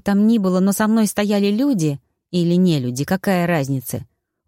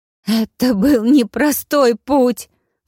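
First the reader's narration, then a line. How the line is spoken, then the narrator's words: Sobbing. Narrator (Russian): всхлипнула мама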